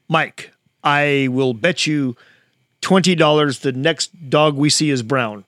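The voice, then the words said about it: Imitates another person's voice. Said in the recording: “This is my best Evel Knievel impersonation.”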